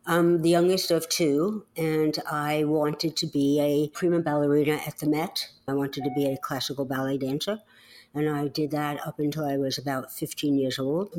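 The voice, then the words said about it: Slight New York accent. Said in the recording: “you still have a bit of your New York accent.”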